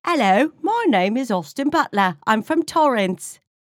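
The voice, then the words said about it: Put-on British accent. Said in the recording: “he's going to play like a British character. Talking like this.”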